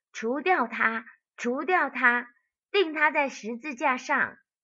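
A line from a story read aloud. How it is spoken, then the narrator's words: Crowd shouting. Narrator (Chinese): 他们喊着说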